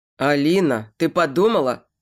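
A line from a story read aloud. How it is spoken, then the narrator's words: Stern urging. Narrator (Russian): Строго тороплю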